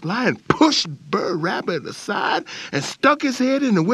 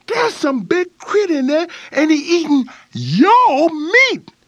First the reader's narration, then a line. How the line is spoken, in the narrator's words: he yelled to Boss Lion